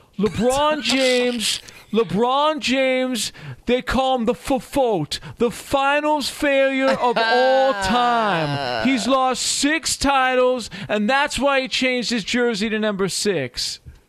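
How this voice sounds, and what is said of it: Imitates another person's voice. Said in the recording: “Do the impression. If you're gonna quote Rob Parker, you have to do your Rob Parker impression. ... Well done. Well done.”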